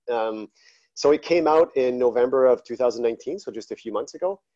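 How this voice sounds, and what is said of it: Slight French accent. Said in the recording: “I might have somewhat of a French accent.”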